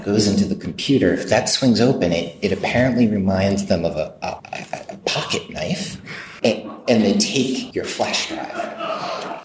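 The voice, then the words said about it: Weak, strained voice. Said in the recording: “doesn't have his voice because this is the first cold and flu season ... give my voice a little bit of break”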